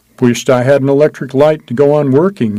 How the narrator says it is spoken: he said

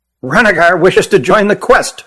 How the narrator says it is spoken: blurted Hutt

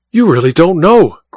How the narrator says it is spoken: cried Goodell, his eyes blazing

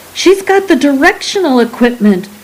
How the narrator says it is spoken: Cromlech screamed

